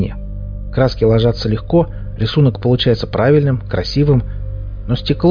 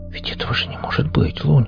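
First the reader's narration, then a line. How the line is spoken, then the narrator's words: Whisper. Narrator (Russian): прошептал Хип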